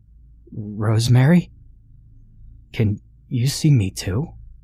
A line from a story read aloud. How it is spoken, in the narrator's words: timidly asked